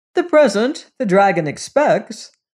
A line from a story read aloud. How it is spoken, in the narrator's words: said Uncle James cheerfully